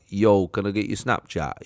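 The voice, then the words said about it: Roadman youth slang voice. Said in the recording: “road men Cheshire kids ... road men, like, sort of hoodies up”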